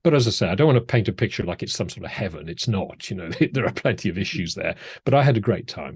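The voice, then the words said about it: British accent. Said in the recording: “the British accent does help”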